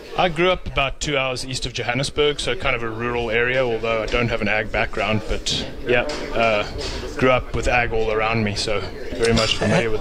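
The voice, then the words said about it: South African accent. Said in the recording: “that isn't a Kentucky accent, is it? ... You're a South African.”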